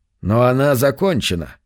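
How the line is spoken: Dry objection. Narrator (Russian): сухо возразил Баттерфилд

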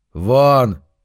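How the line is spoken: Barked order. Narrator (Russian): рявкнул

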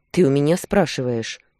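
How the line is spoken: Snapping retort. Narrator (Russian): Огрызнулся

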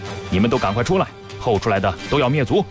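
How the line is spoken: Desperate command. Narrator (Chinese): 李队自知触怒赵武灵王，便干脆铤而走险，告诉宫人和侍卫道

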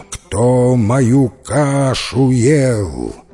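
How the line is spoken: Angry loud rough roar. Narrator (Russian): Рассердился медведище и заревел громким, грубым, страшным голосищем

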